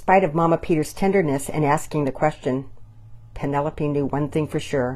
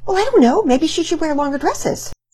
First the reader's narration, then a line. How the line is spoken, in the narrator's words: She took in a deep breath and answered hastily